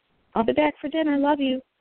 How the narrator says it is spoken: I called out

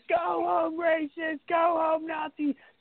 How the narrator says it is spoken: screaming

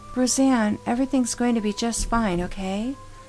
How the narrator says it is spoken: said sweetly

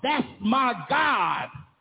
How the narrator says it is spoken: you beat your chest and shout

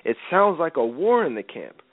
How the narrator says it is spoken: Joshua exclaimed to Moses

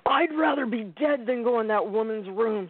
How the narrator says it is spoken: shouted

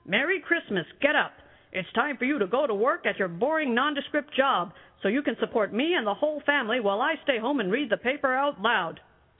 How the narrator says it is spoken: yelled

